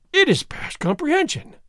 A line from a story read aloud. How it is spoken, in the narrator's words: Don Diego exclaimed